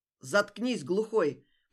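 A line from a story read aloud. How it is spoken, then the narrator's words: Sharp shout. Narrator (Russian): прикрикнул хозяин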